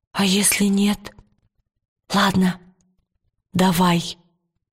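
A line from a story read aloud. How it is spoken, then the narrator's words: Soft reply. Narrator (Russian): тихонько откликнулась Лира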